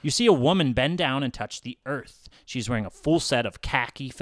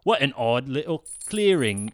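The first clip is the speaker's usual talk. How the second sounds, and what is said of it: Put-on British woman's accent. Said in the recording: “says a British-sounding woman's voice. I'm usually better at accents than that.”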